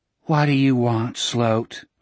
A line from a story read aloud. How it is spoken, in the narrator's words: Lily asked in a tired voice